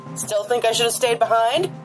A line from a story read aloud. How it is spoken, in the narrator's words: she shouted